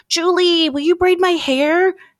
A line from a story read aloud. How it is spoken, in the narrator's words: Kelsey pleaded